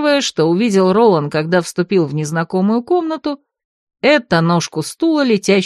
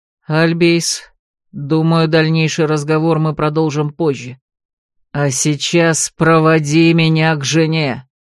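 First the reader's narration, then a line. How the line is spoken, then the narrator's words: Growl. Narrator (Russian): Последние слова он прорычал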